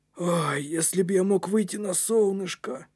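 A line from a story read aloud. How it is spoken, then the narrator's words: Wistful sigh. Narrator (Russian): Вздохнул Кнут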